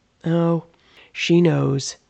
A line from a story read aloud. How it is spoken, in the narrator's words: Nathan answered back flatly